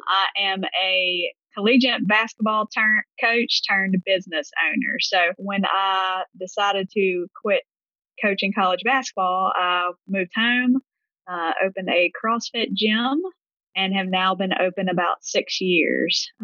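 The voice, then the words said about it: Deep Southern US accent. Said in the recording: “If you can't tell by my accent, I'm from the Deep South in Gulfport, Mississippi.”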